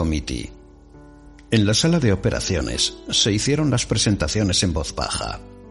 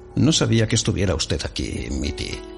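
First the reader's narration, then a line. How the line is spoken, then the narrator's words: Murmur. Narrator (Spanish): murmuró Remington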